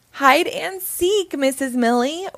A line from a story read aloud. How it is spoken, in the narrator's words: we yell